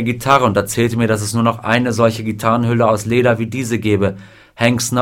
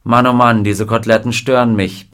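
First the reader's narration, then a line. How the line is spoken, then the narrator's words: Dry remark. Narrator (German): bemerkte trocken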